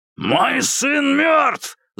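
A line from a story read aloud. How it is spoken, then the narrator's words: Growling. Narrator (Russian): зарычал майор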